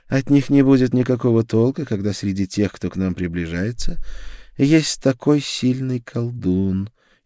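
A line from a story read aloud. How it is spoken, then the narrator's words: Even calmer. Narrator (Russian): еще более спокойно ответила она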